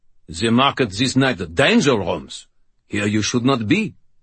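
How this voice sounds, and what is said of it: Low-pitched Germanic-accented character voice. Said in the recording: “in a Germanic accent ... The cob's voice was pitched low”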